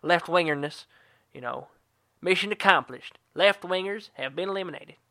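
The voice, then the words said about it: Poor George Bush impression. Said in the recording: “That sounds like something George Bush would say... Terrible accent”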